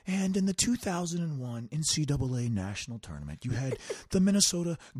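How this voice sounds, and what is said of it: Soft, soothing imitated voice. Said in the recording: “Earl's got this really nice, good, like soft voice. Not like our, you know, voices at all ... calm and soothe me”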